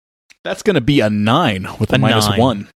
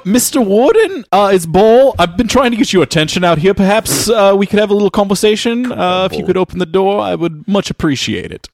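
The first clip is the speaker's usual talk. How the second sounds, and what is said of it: Put-on New Zealand accent. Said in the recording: “He doesn't believe your accent. ... So, you were South African last time I talked to you. Now you're New Zealand.”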